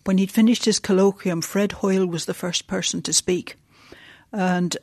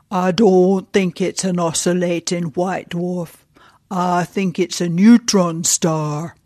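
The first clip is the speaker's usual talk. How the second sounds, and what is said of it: Yorkshire accent impression of Fred Hoyle. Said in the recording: “in his best Yorkshire accent”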